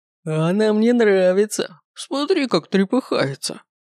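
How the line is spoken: Man guffawing, shaking with laughter. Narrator (Russian): Заржал мужик и буквально затрясся от хохота

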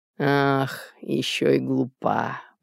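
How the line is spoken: Muttering to herself. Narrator (Russian): пробормотала она будто бы самой себе

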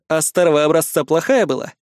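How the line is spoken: Skeptical snort. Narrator (Russian): хмыкнул я

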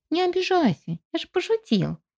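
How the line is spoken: Cheerful reply. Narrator (Russian): весело отозвался жук

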